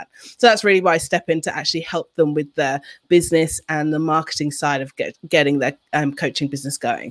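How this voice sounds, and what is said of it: Mixed London and Australian accent. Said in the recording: “I'm originally from London, and I live in Canberra, Australia. So that's why you may be wondering what's up with her accent. ... You got a mix there, huh? ... Yes, it's a whole bag.”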